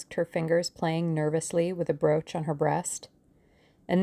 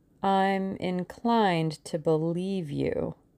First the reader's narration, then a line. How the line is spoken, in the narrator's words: she said slowly